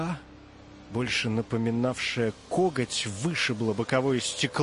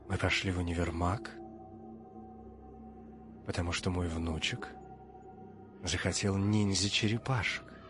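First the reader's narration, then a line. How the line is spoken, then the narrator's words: Old man's whisper. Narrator (Russian): прошептал деда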